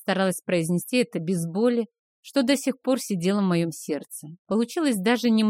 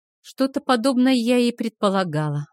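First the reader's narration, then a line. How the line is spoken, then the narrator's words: Sighing reply. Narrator (Russian): ответила я, вздохнув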